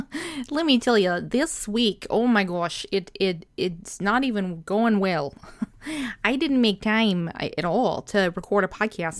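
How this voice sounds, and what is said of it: Goofy cartoonish put-on accent. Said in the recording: “I don't even know what this accent is. It's an accent... it almost sounds kind of like Bobby's World, but it's awful”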